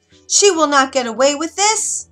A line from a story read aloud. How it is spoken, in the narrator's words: She screamed